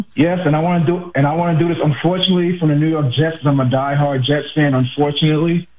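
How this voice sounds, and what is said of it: New York accent. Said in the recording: “the way you said "unfortunately" means you're from my neck of the woods. Where are you? Are you a Queens guy? ... I can hear it from your accent.”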